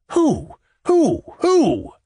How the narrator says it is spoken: cried the old gentleman

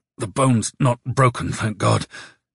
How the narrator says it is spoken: he said through his teeth

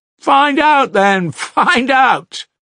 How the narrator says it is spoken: cried the boys, laughing

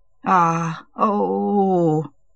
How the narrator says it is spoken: he groaned

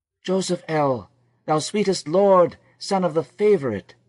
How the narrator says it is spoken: cried Zilpah

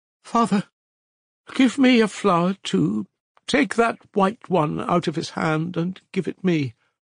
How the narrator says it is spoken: the crazy mother begged, whimpering

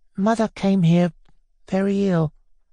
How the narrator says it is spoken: Nellie went on in a low voice

